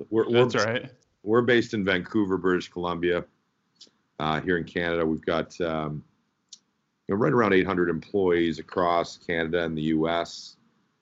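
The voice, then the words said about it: Slightly congested voice. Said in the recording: “I've got a bit of a cold.”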